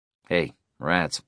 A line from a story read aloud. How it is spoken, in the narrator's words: Case said